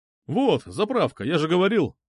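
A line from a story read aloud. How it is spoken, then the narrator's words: Exclaimed. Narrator (Russian): воскликнул водитель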